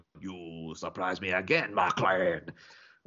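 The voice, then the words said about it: Iffy Jeremy Irons impression. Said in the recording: “possibly doing a better Jeremy Irons impression than I do, but a sort of iffy Jeremy Irons impression”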